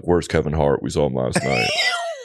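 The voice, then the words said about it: Imitated bouncer's voice. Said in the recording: “Whose accent is that? ... It's a bouncer. ... That's a bouncer. Yeah. Who's trying to be a comedian.”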